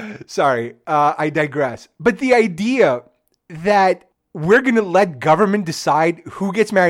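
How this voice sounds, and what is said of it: Usual voice. Nothing is said of it.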